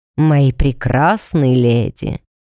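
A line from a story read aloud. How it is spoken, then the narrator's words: Booming bass. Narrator (Russian): Прогудел зычным басом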